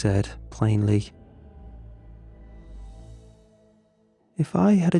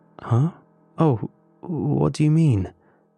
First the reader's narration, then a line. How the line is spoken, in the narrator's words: I stuttered back